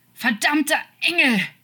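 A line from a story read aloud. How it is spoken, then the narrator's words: Shouted, suppressing sobs. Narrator (German): schrie er und unterdrückte das Schluchzen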